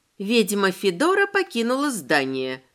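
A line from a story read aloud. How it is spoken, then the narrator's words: Smirking under breath. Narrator (Russian): хмыкнула я себе под нос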